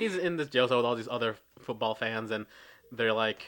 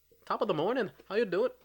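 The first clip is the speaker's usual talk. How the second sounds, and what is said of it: Bad put-on Irish accent. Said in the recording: “What was that accent? ... that was probably somewhat Irish even though it was a really bad Irish ... it's always a weird combination of between like, Canadian”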